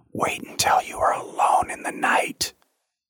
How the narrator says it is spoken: one of the older ones whispered to me

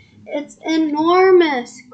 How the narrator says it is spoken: cried Jack

